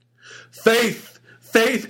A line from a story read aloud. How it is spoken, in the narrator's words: cried the husband